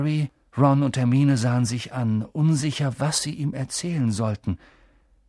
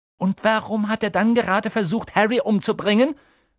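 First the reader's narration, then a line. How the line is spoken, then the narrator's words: Call. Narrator (German): rief Hermine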